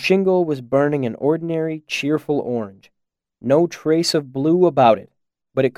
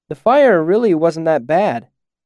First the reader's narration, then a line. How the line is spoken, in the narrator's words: I called out to Denna